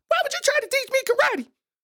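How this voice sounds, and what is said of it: Strained high-pitched voice. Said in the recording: “You know when somebody talking that high voice, they really trying.”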